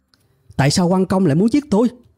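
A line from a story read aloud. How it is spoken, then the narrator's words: Confused loud shout. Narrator (Vietnamese): trong trạng thái bối rối đó, tôi quỳ trên mặt đất hét lớn lên rằng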